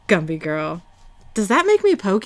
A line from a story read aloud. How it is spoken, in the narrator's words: He laughs and says